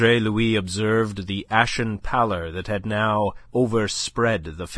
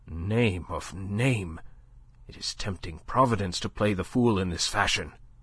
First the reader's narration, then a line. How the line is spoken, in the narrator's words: Le Chapelier swore softly, muttering